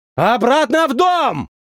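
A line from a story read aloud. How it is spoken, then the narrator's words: Shouted. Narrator (Russian): крикнул я им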